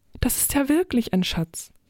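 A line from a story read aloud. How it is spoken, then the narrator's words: Calling. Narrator (German): rief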